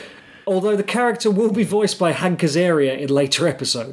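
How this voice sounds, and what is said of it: Usual voice. Nothing is said of it.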